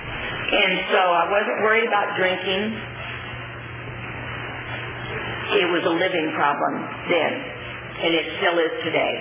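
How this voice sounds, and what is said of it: Voice giving out, hoarse. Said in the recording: “I'm losing my voice here”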